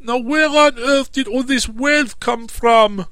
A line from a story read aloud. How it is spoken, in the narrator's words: he exclaimed